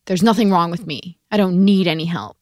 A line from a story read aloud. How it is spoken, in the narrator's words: his mother snapped at him